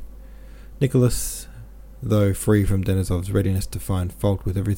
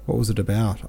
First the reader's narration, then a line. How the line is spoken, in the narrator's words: asked Nicholas